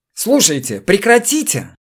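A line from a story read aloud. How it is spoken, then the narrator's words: Shrieking. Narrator (Russian): взвизгнул Шерхебель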